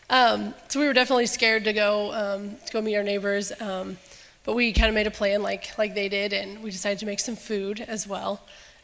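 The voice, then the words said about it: Congested voice from a cold. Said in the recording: “I've got a little bit of a cold.”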